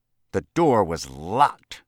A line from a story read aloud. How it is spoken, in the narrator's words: snarled